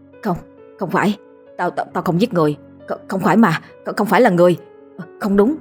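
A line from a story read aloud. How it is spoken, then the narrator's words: Panicked stammering. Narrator (Vietnamese): Hắn cứ lắc đầu ngoài ngoại mà lắp bắp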